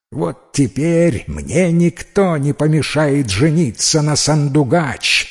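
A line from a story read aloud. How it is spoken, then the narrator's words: Joyful shout. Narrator (Russian): с радостью прокричал Кылтап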